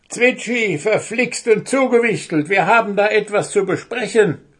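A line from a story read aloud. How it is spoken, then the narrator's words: Goblin roaring excitedly. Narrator (German): brüllte der Wichtel aufgeregt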